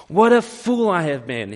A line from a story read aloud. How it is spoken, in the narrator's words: exclaimed again, even more loudly